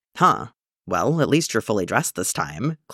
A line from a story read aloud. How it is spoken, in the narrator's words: Clint said